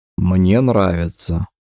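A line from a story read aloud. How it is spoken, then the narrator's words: Smiling, hollow, breaking voice. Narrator (Russian): произнес он с улыбкой, но голос звучал глухо, ломко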